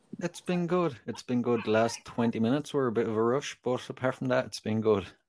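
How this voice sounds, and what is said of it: Irish accent. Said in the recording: “I can't get over your accent. It's beautiful”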